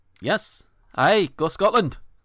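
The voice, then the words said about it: Low-effort, bad Scottish accent. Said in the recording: “That's your Scottish accent... I am not putting too much effort into it at the moment... It's fucking horrible.”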